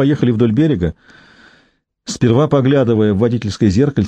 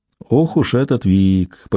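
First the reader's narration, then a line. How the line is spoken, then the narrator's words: Drawling. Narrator (Russian): протянул он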